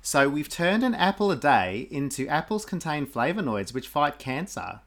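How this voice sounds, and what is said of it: Put-on Australian accent. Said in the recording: “can you do that in an Australian accent? ... I thought that was quite good. ... That wasn't bad at all. ... Bad.”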